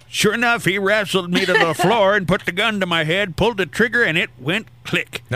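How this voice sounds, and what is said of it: Old man voice. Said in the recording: “I'm going to do it in an old man voice just so it kind of, you know, rings true.”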